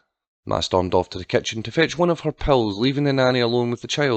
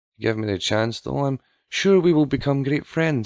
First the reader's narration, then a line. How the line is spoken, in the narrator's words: she continued in a patronising tone